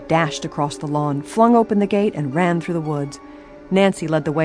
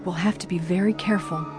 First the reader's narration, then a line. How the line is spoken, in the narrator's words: she warned in a whisper